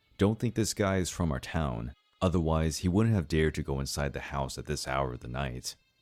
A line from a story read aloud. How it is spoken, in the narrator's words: I said in a low but sarcastic voice